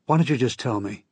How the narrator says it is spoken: He sighed as if I were hopeless

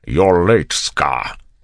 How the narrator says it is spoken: he snapped

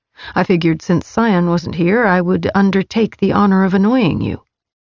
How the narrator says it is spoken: he replied, his tone flat

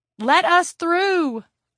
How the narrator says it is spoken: Elaine yelled

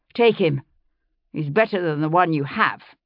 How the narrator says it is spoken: he said roughly

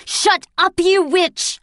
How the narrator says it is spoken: I screamed

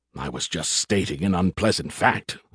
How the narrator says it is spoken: Skippy grumbled

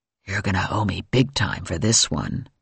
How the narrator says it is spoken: Morelli whispered in my ear

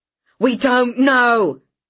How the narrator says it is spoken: Jean yelled back

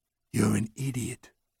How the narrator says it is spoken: he murmured softly

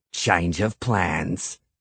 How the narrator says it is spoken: Cregan said, his mouth curved into a nasty sneer

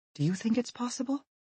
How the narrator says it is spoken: she answers him quietly

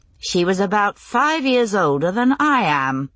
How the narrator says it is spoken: Claire said dryly

